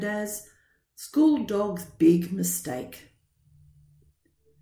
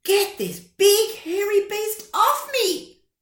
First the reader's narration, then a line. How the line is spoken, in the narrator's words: shouted